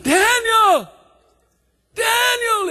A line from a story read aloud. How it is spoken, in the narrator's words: he hollered